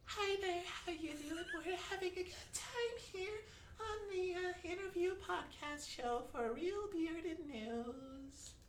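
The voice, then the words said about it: High-pitched put-on voice. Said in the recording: “I'll do a voice ... We'll start high to low. ... The starting high.”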